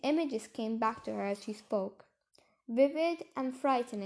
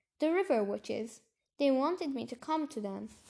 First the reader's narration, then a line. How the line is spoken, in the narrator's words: Serafina said